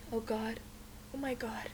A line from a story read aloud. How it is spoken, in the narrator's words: murmurs